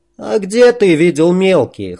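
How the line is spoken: Snorting scoff. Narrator (Russian): хмыкнул бродяга

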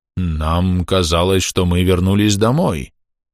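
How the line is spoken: Uncertain dwarf. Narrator (Russian): неуверенно ответил гном

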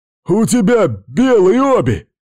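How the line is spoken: Screaming in pain and hatred. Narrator (Russian): заорал он от боли и ненависти

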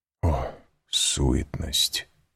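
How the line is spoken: Whisper. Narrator (Russian): прошептал граф

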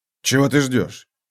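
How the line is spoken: Mimicking another's intonation. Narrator (Russian): сказал, точно тоном Эсси с ее интонациями

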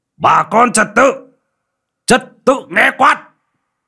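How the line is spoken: Forceful shout. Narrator (Vietnamese): Pà Chảy Hổ vận lực mà quát

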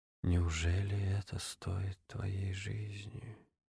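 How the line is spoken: Quiet moan. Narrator (Russian): Джеймс тихо простонал

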